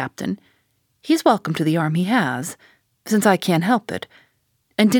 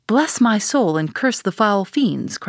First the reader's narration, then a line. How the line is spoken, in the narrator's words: cried Bunger